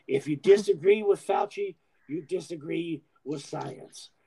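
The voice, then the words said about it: Imitates another person's voice. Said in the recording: “let me do my impersonation ... that's kind of what he sounds like whenever he's talking to Rand Paul”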